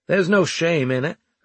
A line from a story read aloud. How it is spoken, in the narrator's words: I said loudly